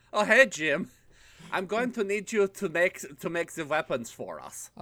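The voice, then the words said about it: Made-up foreign accent. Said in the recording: “straight up doing his Tordovian accent ... this accent, whatever the fuck it was at least consistent”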